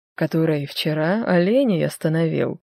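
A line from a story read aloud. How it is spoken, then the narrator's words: Plain. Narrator (Russian): говорит он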